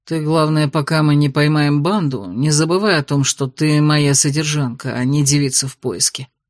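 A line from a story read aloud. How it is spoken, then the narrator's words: Grumble. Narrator (Russian): буркнул Дейрон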